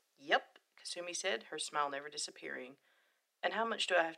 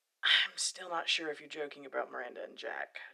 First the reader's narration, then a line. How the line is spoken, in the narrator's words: Shepard sighed